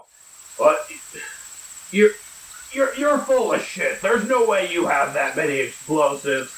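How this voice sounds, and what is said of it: Deep character voice. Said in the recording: “You hear a deep voice from inside go,”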